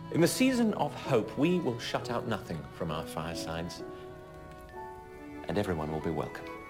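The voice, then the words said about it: British accent. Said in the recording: “That British accent, much better than my own”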